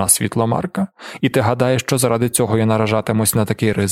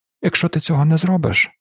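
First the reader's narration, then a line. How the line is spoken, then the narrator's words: Calm tone. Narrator (Ukrainian): спокійним тоном проговорив Каладін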